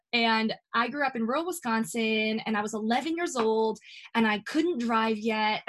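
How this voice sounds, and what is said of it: Rural Wisconsin accent. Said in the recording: “So I grew up in rural Wisconsin. And you might hear that, by the way, okay? If you hear that accent, it doesn't matter how many states I've moved from, still got it.”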